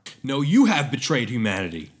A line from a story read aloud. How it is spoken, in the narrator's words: shouted Prometheus